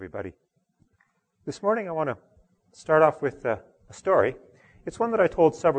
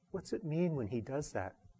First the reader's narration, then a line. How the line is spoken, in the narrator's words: his friend leaned over and whispered